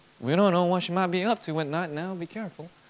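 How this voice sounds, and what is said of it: Put-on southern accent. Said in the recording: “I come up with this southern accent”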